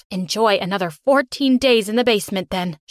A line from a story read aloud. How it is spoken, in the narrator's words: she exclaimed